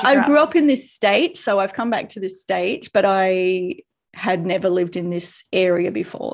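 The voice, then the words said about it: Australian accent. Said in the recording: “you might tell by my accent, Australian, and I'm from Queensland in Australia”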